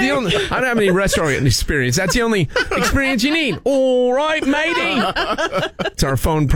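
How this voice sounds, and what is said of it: Usual voice. Nothing is said of it.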